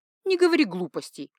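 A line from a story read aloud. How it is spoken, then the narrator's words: Snort. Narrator (Russian): фыркнула в ответ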